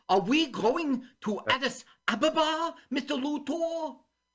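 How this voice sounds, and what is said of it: Imitates another person's voice. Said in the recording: “You sound like him. ... here's my impression.”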